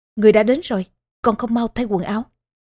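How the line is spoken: Harsh, gritted shout. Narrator (Vietnamese): Tô Hậu gằn giọng quát

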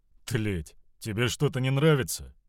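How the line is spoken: Completely calm. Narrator (Russian): дезертир говорил абсолютно спокойно

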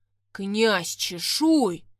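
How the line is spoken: Thunderous roar. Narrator (Russian): прорычал он так, что кружки на столе подпрыгнули

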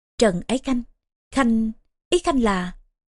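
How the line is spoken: Stunned stammering. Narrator (Vietnamese): Ngụy Hệ Hầu sững sờ hồi lâu mới lắp bắp

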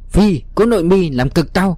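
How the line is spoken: Man crying out. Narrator (Vietnamese): một gã đằng trước kêu lên

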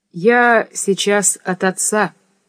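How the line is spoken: Slow speech. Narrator (Russian): медленно проговорил Никита

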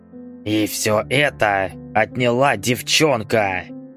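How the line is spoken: Hissed. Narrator (Russian): прошипел Ордынцев

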